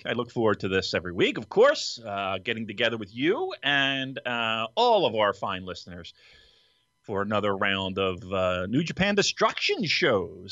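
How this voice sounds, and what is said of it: Radio broadcaster voice. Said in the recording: “I don't know why I'm talking in my broadcasting voice today”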